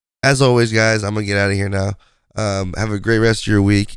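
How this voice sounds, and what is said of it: Raspy, hoarse voice. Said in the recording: “hopefully I'm not raspy for you guys... listening to this stupid voice”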